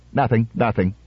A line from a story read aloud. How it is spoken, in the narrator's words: said irritably